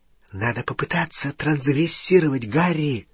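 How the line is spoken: Whisper. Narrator (Russian): шепнула Гермиона

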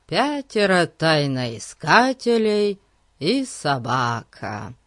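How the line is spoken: Drawling. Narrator (Russian): протянул Ларри

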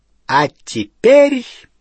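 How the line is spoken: Triumphant ringing proclamation. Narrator (Russian): победно звенящим голосом провозгласила она

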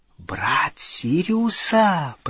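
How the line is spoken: Whisper. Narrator (Russian): прошептала она

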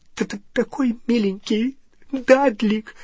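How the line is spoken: Sobbing. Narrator (Russian): всхлипывала она, прижимаясь к его могучей груди

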